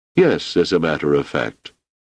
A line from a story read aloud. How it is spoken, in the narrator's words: said Amaral